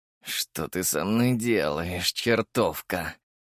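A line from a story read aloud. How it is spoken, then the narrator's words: Growled. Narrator (Russian): прорычал Черчесов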